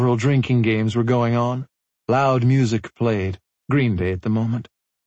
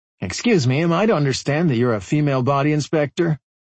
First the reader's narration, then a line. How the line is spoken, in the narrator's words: Scully smiled but didn't laugh